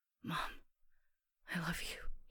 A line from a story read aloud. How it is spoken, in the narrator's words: he said, his voice a harsh whisper